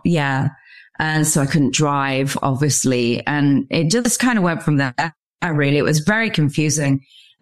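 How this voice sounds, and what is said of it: English accent. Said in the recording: “I'm obviously from Stratford-upon-Avon in England. You can tell by my accent.”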